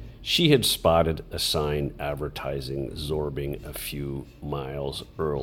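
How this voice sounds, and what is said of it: Usual voice. Nothing is said of it.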